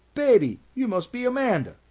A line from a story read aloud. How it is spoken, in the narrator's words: a woman cried